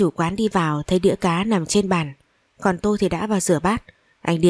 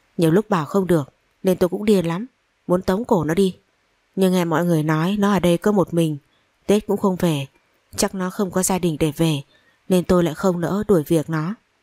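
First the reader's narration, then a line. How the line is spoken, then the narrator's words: Sighing. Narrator (Vietnamese): Anh chủ quán thở dài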